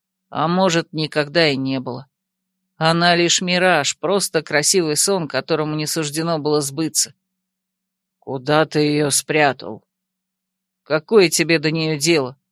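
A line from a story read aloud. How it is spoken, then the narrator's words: Quiet, growing angry. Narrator (Russian): Фаэс тихо выдохнул, явно начиная злиться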